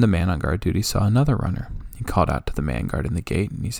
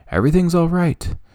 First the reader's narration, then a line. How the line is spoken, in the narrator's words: Ahimaaz called out to the king